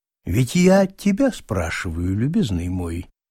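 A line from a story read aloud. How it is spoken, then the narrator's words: Calm. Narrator (Russian): спокойно продолжал Аркадий Павлович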